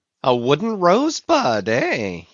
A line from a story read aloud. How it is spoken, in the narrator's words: he cried with his hand to his nose